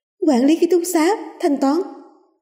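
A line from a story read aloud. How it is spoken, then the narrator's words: Schoolgirl crying out. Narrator (Vietnamese): tiếng của một nữ sinh kêu lên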